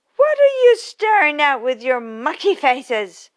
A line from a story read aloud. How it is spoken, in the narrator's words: snapped the gnome